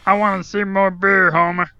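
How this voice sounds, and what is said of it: Cartoon character voice impression. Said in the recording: “This is like Barney from The Simpsons. ... that's a good impression.”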